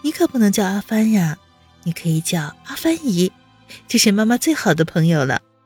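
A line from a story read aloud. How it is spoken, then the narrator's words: Laughing. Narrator (Chinese): 温之夏一下子就笑起来，道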